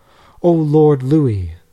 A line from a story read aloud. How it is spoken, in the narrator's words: all cried out in the midst of their sobs and wailing